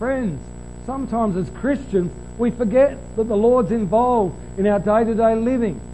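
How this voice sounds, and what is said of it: Usual voice. Nothing is said of it.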